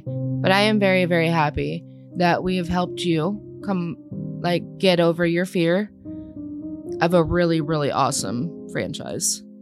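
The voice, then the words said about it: Flat monotone voice. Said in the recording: “my voice is always monotone”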